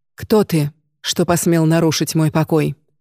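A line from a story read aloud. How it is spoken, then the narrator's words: Cold, stern question. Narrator (Russian): спросила она холодным суровым голосом, от которого в прежние времена робели цари и полководцы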